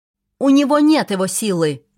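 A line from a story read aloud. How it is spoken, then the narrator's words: Fairy shouting. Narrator (Russian): крикнул один из фейри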